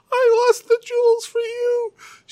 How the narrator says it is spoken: she wailed

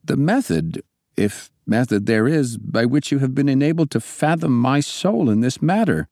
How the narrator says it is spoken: I exclaimed

